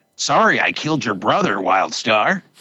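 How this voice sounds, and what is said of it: Star Blazers character impression. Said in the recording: “Can I do my Star Blazers impression? ... That's pretty good, actually.”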